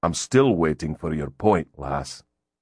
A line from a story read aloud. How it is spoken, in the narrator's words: he said dryly